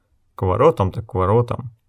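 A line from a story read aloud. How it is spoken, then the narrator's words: Displeased mutter. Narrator (Russian): недовольно пробормотал Гис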